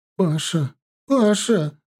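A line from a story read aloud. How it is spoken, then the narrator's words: Sobbing. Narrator (Russian): Реально рыдала мать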